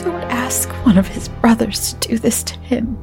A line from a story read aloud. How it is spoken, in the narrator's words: Lita pleaded